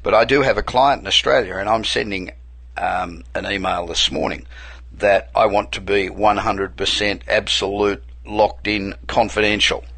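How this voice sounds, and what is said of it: Australian accent. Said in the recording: “I'm originally Australian. I've been here 27 years, but I can't throw the accent.”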